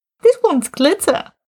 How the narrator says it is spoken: Martin said cheerfully

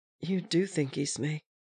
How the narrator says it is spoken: he whispered

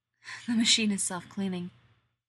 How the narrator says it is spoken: Rodney pants into his ear, hot and intimate

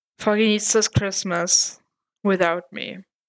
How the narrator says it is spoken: said Matt with a sad sigh

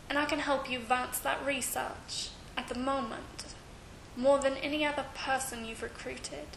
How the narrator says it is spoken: he murmured

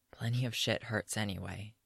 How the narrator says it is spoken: she rasps

